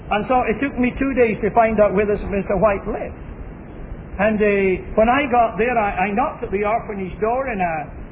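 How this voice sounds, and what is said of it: Scottish accent. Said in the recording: “my Scotch accent”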